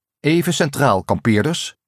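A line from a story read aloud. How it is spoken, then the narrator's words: Group leader calling out. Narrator (Dutch): riep de groepsleider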